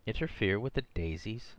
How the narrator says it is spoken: said Michael with a snort

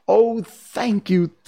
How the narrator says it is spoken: cried the Scarecrow

